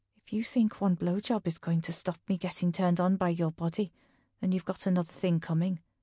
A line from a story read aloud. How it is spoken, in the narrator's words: he whispers